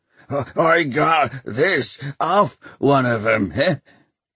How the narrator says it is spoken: Peavy grunted

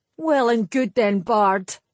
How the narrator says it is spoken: he snarled

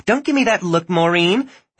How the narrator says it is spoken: Heather snapped

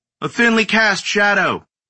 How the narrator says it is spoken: From the center row, a pimply-faced kid called out

